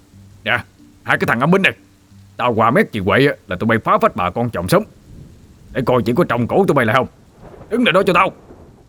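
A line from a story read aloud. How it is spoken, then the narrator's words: Old man shouting while running. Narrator (Vietnamese): Ông Út vẫn chạy dí sát theo sau, vừa quát lên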